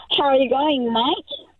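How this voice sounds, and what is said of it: Put-on Australian accent. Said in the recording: “attempted an Australian accent? ... like an Aussie ... That's pretty good. ... That's really good.”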